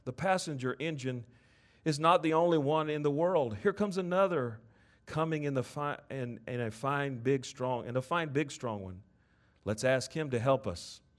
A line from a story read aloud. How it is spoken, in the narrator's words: the little clown called out